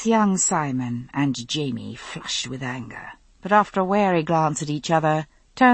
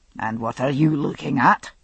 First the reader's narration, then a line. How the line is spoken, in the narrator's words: Lord Lovat growled